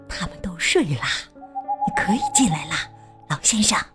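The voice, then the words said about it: Quiet whispered voice. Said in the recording (Chinese): “小声说”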